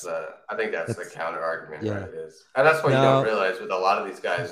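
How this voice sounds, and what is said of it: American accent. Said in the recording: “I'm originally British. You can't tell because I'm American now, my accent”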